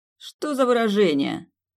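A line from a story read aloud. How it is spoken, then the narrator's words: Mocking. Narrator (Russian): насмешливо произнес Александр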